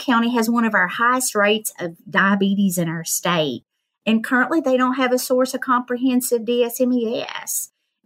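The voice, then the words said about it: Hillbilly accent. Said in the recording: “your hillbilly accent. I think it's lovely and it makes you so approachable.”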